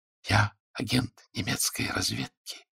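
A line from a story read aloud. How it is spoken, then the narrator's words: Barely audible. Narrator (Russian): говорит еле слышно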